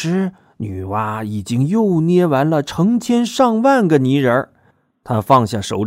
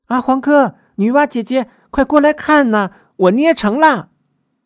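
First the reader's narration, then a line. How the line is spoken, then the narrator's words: Excited shout. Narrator (Chinese): 他兴奋的叫着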